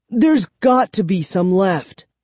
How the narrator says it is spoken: I cried

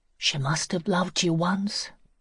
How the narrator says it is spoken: she said quietly

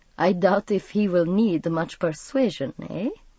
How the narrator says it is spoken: Stefan chuckled

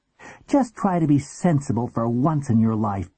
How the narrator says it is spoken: she snapped

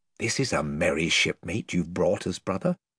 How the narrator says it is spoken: whispered Caspian to Edmund with a chuckle

